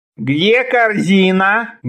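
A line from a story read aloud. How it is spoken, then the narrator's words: Menacing demand. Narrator (Russian): грозно вопросил Ши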